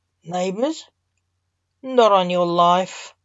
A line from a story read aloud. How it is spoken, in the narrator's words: grumbled the thoroughly over-the-show Lance